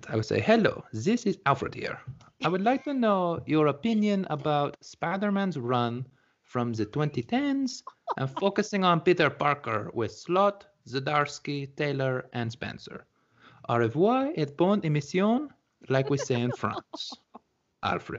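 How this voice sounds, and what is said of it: Put-on French accent. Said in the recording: “I promised this reader I would read it in a French accent. ... Okay, so this is my French accent. ... That wasn't bad. ... There's my stupid voice for the episode.”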